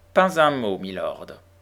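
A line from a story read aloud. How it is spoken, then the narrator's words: Cold. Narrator (French): reprit l'homme de loi froidement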